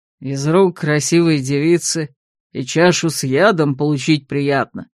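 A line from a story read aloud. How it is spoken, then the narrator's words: Deep bass, interested. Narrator (Russian): пробасил воин с интересом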